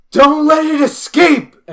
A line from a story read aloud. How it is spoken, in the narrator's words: Jean yells